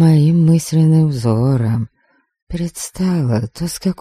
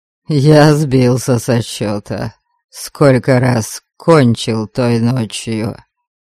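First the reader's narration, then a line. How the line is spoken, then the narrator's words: Deliberately coarse, hidden bitterness. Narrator (Russian): Нарочито грубо и развязно продолжил Кейман, хотя мне чудилось в его тоне непонятная горечь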